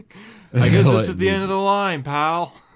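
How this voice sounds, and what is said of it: Imitates another person's voice. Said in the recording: “That was a good impression. I bought that.”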